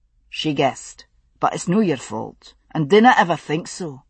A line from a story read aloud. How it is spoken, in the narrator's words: he said firmly